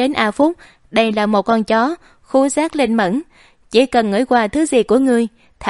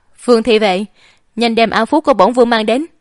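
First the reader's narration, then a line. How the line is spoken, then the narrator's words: Nauseated sharp shout. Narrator (Vietnamese): Đoan Mộc Lôi Đình nhìn cảm giác muốn ói, nhìn thống lĩnh thì vệ quát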